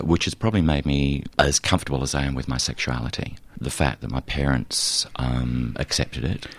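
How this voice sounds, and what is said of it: Australian accent. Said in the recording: “I do sound Australian.”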